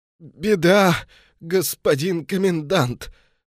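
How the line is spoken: Strained, then coughing. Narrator (Russian): сумел выдавить из себя адъютант и зашелся кашлем

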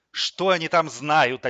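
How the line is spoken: Contemptuous snort. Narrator (Russian): Альберт Витальевич презрительно фыркнул

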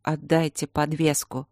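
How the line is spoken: Lifeless demanding voice. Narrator (Russian): безжизненным голосом потребовала Пол

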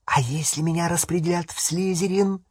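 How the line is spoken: Quiet whisper. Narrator (Russian): Это было сказано тихим шепотом, чтобы не слышал никто, кроме отца

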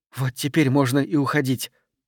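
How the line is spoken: Muttering. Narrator (Russian): пробормотала Марго

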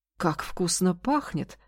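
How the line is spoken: Plain. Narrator (Russian): сказал он

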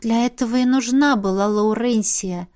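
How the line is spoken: Sad sigh. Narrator (Russian): вздохнула я, вспомнив о несчастной драконице

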